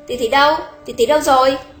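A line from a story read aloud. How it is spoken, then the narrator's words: Alarmed loud question. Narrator (Vietnamese): Hồng Ngọc lập tức ầm cả kinh, lớn tiếng hỏi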